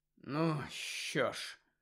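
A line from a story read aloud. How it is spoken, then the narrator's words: Heavy sigh. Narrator (Ukrainian): важко зітхнув Гаррі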